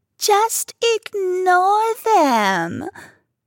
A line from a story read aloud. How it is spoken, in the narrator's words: Vicky squealed back in a sing-song tone